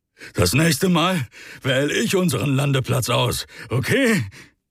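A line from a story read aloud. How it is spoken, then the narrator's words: Breathless. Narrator (German): Atemlos Rick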